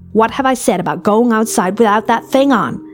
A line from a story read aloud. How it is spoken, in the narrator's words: snapped